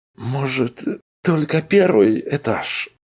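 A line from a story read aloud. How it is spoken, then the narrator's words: Pleading. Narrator (Russian): взмолился Арнольд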